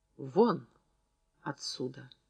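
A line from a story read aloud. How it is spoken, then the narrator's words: Sudden quiet voice. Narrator (Russian): Зина тихо произнесла вдруг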